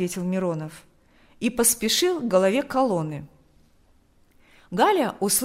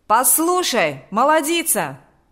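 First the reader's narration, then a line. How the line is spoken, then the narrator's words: Shouted. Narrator (Russian): закричал Миронов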